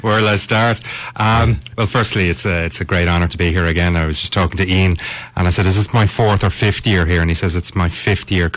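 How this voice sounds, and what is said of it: Speaker's natural regional accent. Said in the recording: “give us a taste of your accent”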